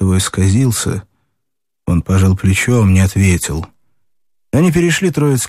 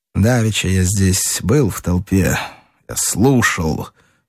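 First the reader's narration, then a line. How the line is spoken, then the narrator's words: Through clenched teeth. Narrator (Russian): проговорил Рощин сквозь зубы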